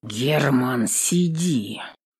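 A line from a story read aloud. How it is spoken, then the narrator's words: Father clipped through teeth. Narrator (Russian): Чеканит сквозь зубы батя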